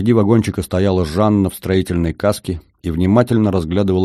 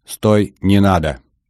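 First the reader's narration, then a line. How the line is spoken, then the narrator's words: Loud command. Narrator (Russian): бобер громко скомандовал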